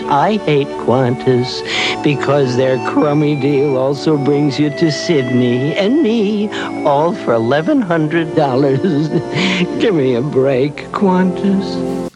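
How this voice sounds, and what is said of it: Sad American accent. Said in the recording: “why does the koala have an American accent? ... Like a sad American accent. ... you don't sound like a native.”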